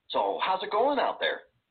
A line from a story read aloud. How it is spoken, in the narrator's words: The cook, in this case Margaret's mother, Kathy, asked me brightly